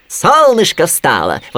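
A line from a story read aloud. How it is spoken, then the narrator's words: Rabbit exclaiming. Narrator (Russian): воскликнул кролик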